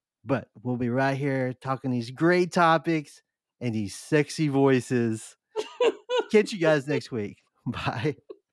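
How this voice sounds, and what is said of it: Low sultry bedroom voice. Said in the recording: “is that your bedroom voice?”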